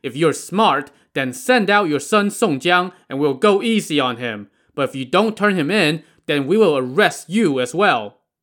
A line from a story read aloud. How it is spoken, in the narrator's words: the Zhao brothers called out